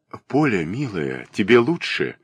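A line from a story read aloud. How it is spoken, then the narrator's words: Soft voice. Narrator (Russian): говорил он мягким голосом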